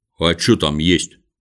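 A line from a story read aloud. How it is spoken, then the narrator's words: Plain. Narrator (Russian): спросил кто-то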